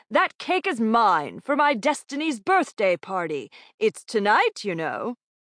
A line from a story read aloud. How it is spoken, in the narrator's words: bellowed a portly man